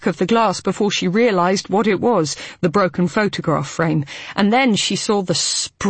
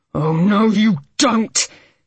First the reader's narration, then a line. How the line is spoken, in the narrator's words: She heard his voice like a hoarse roar of pure fury